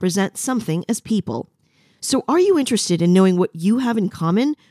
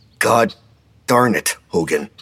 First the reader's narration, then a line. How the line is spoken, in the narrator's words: Fred growled between his teeth, clipping his own profanity for the sake of the kids